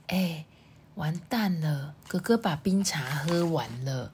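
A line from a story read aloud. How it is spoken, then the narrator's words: Very quiet. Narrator (Chinese): 象妹很小声的说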